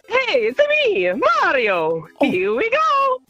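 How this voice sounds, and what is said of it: Good Mario character voice. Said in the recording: “your best Mario impression ... that is good ... Do you know you have a good Mario?”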